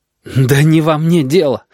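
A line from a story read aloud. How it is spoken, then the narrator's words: Desperate exhale. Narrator (Russian): отчаянно выдохнул он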